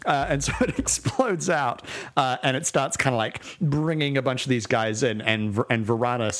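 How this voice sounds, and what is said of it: Usual voice. Nothing is said of it.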